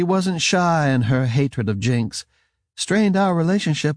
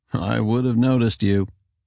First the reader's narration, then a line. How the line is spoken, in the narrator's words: she chuckled